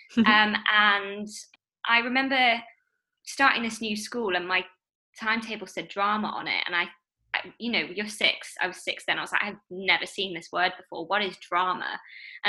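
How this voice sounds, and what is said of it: Northern English accent. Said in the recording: “hence the northern accent now”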